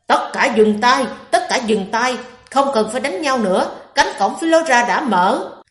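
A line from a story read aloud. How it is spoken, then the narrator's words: Hurried shout. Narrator (Vietnamese): Vạn Phân Thiên vội la lên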